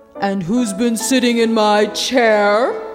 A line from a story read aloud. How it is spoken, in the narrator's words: growled the Father Bear